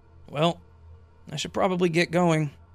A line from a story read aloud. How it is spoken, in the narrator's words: he let out a slight sigh and said